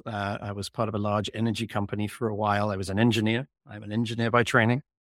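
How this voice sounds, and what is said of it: English accent. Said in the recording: “You might be able to detect from my accent that I've come from lands afar. I was born and raised in England”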